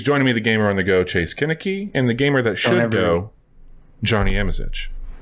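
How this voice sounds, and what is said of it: Low smooth bedroom radio voice. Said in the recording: “Don't ever talk in that tone of voice again. Don't use your bedroom voice... This bedroom tone?... That just sounds like your NPR voice”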